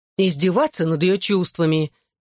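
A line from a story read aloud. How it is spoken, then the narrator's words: Angry explanation. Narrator (Russian): сердито пояснила Лиззи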